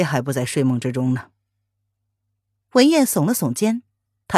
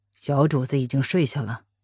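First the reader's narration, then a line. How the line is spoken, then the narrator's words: Calm, quizzical question. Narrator (Chinese): 黑影……开口淡淡的挑眉问道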